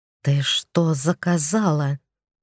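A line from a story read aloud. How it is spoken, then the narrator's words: Hiss. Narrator (Russian): прошипел мне Кощей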